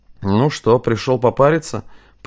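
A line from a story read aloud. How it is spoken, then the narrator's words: Drowsy grumble. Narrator (Russian): проворчал он, разомлевший от жары и пара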